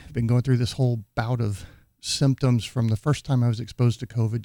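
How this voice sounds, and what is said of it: Sick-sounding voice. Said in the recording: “as some of you can probably tell from my voice, I'm a little bit sick.”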